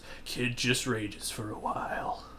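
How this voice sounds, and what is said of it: Weak impression of Rux. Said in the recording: “That's a terrible impression of him, by the way. Not really trying very hard.”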